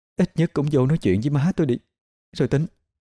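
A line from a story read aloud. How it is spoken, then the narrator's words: Choked voice. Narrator (Vietnamese): Mai lại nói với chất giọng nghẹn nghẹn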